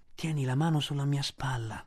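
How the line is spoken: Whispering. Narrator (Italian): sussurrò Bagheera

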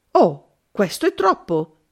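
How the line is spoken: Exclaimed. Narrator (Italian): esclamai

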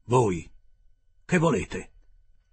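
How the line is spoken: Harsh tone. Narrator (Italian): mi disse in tono aspro

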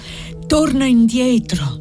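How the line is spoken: Breathless girl's voice. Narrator (Italian): disse la fanciulla con voce ansante

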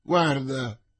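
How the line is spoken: Plain. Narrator (Italian): disse Porthos

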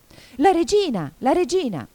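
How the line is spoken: Anxious shout. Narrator (Italian): Cinque, che guardava attorno pieno d'ansia, gridò

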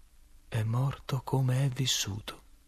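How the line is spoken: Sudden very quiet voice. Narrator (Italian): All'improvviso mi disse, molto piano

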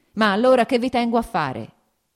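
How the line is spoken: Shouted. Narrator (Italian): gridò

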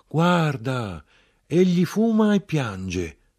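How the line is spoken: Children exclaiming. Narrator (Italian): i fanciulli esclamarono

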